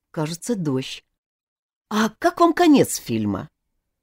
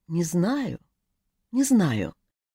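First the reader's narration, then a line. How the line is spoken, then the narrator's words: Quiet reply. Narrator (Russian): тихо ответила она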